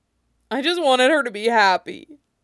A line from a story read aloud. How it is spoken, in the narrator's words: Zara sobs